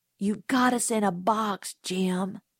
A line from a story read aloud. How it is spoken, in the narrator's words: I muttered